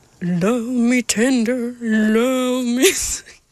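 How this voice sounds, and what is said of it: Imitates another person's voice, singing. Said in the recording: “my Elvis impression ... release the essence of Elvis”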